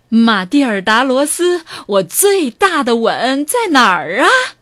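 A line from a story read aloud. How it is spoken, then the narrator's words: Loud voice. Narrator (Chinese): 有人在大声的说话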